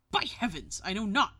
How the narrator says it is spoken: exclaimed Henry

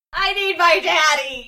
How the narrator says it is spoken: yelled Chucky as he began to cry

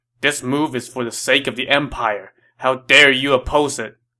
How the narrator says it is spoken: Dong Zhuo reproached him angrily

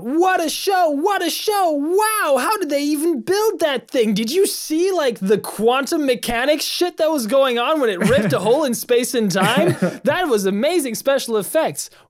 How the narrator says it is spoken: Some shout

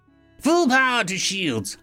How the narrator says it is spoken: I yelled out

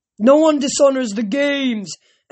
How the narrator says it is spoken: Antaeus bellowed

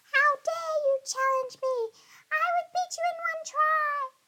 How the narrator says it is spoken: the fairy screeched in a very high and angry voice

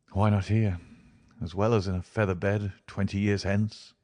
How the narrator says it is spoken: he muttered

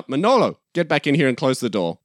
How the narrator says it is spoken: We hear a voice from behind him shout

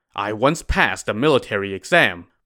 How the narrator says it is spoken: Yang Zhi replied

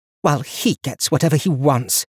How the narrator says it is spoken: she said bitterly

